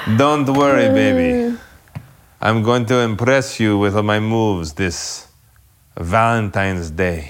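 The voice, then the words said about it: Unidentified put-on accent. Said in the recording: “You're impressing me with your accent, whatever it is.”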